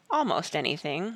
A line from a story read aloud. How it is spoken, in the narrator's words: Will said gently